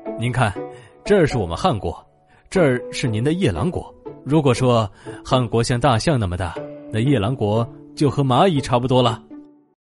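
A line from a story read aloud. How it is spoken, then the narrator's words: Smiling. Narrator (Chinese): 他笑着对夜郎国的国王说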